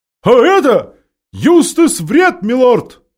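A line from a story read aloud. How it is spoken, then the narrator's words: Shouting with all strength. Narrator (Russian): изо всех сил прокричала сова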